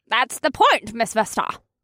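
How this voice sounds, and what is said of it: Shrill voice. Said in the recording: “replied in a shrill voice that threw me completely off”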